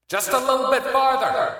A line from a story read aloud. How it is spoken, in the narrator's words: he shouted